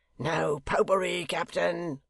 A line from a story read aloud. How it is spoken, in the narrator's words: roared Hugh